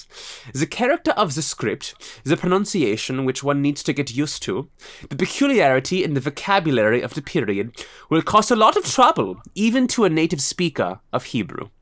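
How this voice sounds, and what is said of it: Put-on German accent. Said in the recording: “my German accent”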